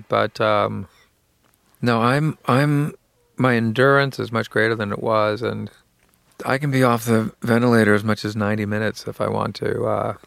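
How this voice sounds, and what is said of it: Slightly hoarse, fatigued voice. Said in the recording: “I'm probably a little bit hoarse today because I've been doing a lot of talking”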